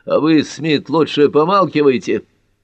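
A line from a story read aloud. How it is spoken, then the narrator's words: Barking. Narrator (Russian): рявкнул Картер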